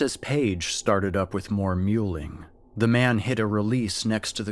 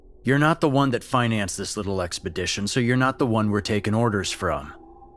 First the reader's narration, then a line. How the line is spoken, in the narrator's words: the man snarled